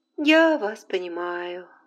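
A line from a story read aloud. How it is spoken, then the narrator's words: Gentle voice. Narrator (Russian): ласковым голосом сказала Скарлетт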